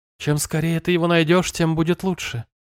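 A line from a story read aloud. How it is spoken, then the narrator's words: Soft female voice. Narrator (Russian): мягко произнесла женщина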